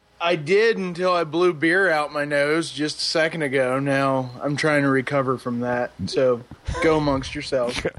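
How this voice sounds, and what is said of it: Maryland accent. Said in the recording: “That was a nice little Maryland accent. .”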